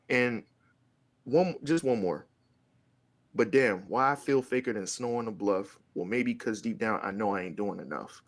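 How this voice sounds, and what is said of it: Strained, fading voice. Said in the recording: “my voice is going out”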